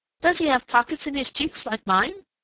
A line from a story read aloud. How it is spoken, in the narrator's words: asked Striped Chipmunk eagerly